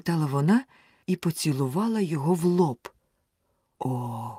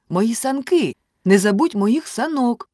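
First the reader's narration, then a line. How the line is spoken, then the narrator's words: Shout. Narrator (Ukrainian): крикнув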